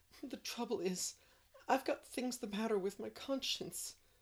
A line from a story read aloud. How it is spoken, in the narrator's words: sobbed Anne